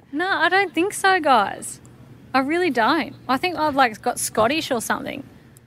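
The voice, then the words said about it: Strong Australian accent. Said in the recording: “That was also the most Aussie accent.”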